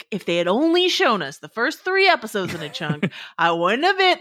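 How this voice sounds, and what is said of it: Imitates another person's voice. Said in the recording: “That's my Dave Chen impression. ... pretty good. ... It's really good. It's really good.”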